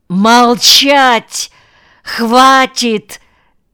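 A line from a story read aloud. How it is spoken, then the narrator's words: Shouted. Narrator (Russian): заорал Николай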